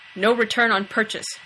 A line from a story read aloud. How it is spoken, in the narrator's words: Kaysen snapped